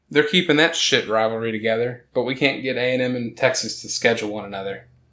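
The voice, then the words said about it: Slight Texan accent slipping in. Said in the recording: “did my Texas come out of my accent when I started talking about it? ... A little bit. ... it slipped in.”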